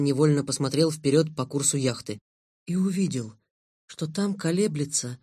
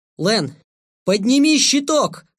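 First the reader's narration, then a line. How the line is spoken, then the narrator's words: Yelling. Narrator (Russian): заорал я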